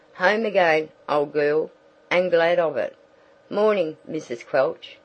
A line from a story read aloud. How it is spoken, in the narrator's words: said the newcomer